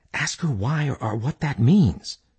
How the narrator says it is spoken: Mac whispered to Dalton

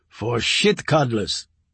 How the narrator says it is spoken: he said and laughed

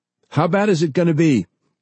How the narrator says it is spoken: Lee shouted

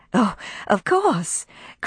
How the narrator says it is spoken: cried Melanie, her face lighting up

